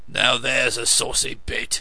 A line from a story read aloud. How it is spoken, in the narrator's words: rumbled the coachman